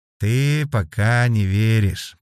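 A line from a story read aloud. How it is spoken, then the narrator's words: Drawn-out drawl. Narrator (Russian): протянул Дугар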